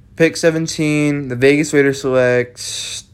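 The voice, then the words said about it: Mock league commissioner announcing voice. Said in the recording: “doing a commissioner voice.”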